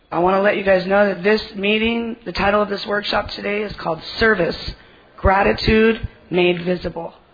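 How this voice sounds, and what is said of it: Hoarse, strained voice. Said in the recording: “I lost my voice because I've been screaming every time I see someone I know.”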